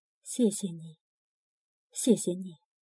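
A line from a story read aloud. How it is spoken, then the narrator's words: Soft thanks. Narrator (Chinese): 人们轻声说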